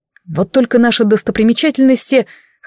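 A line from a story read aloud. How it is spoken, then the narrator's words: Snort. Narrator (Russian): хмыкнул Самаэль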